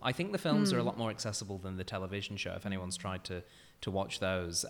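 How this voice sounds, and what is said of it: British accent. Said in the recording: “as someone who might be able to tell by the accent, is British”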